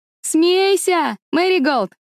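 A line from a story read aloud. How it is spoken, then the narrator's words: Shouted from a distance. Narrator (Russian): крикнула она от автомобиля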